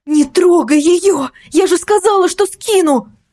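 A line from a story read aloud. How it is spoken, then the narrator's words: Throat-tearing scream. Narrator (Russian): закричала я, срывая горло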